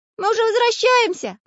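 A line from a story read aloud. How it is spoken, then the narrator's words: Shout. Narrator (Russian): крикнул Карандаш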